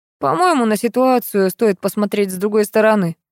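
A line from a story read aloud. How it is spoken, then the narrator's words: Skeptical snort. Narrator (Russian): хмыкнул Платонов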